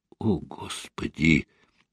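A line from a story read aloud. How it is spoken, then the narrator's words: Quiet. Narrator (Russian): Тихо проговорил Константин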